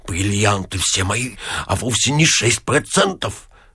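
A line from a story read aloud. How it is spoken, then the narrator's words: Sullen muttering. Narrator (Russian): Ипполит Матвеевич насупился и, бормоча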